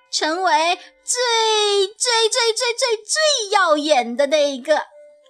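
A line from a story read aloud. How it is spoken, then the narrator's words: Loud shout. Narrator (Chinese): 真顺顺大叫起来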